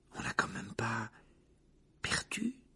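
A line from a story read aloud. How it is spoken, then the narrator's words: Murmuring. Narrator (French): murmura-t-il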